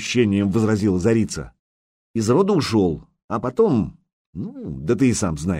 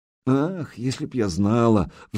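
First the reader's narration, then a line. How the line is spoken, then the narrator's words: Sighing. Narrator (Russian): вздохнула зарица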